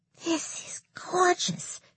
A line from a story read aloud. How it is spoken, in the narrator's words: she whispered